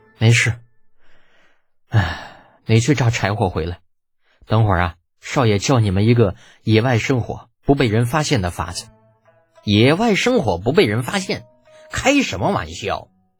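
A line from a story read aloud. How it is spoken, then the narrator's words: Sighing. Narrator (Chinese): 叹了口气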